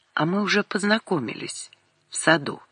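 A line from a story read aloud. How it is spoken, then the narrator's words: Quiet answer. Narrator (Russian): Лиска тихо ответила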